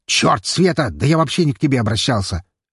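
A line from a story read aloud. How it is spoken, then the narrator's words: Barking snap. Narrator (Russian): рявкнул глава компании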